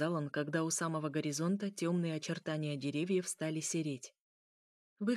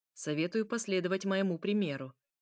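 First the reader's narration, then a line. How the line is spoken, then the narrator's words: Cold. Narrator (Russian): произнес он холодно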